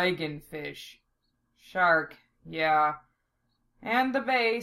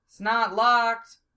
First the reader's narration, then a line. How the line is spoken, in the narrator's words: Val shouted